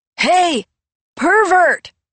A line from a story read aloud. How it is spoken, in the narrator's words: He yelled with unlikely courage